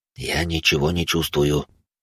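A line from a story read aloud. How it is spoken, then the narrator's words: Whispering priest. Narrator (Russian): шепотом произнес отец Марк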